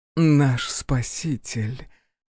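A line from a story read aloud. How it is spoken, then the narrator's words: Deep velvety female voice. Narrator (Russian): Глубоким бархатным голосом произнесла темная эльфийка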